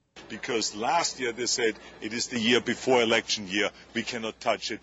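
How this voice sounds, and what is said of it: Speaks with a noticeable accent. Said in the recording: “you've lived here for 40 years. Lose your accent. ... it's funny to laugh at people with accents.”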